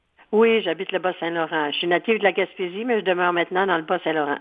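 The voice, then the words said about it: Gaspésie Quebec French accent. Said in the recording (French): “mon accent vient de là”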